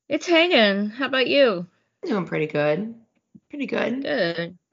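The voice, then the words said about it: Hoarse voice. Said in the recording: “I'm still hoarse from my COVID experience. I can hear, poor thing.”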